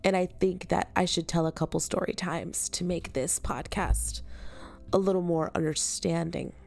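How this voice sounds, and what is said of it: Nasal, congested voice. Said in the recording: “I'm actually like recovering from being sick, so if that's why I sound a little nasally”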